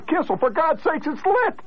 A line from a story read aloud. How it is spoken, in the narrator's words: The crowd hollered